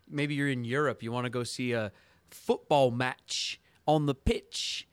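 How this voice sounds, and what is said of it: Bad put-on British accent. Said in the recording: “Your British accent is so bad.”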